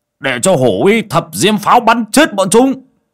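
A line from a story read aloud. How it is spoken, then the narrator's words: Sharp shout. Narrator (Vietnamese): Bảy ếch quát lên một tiếng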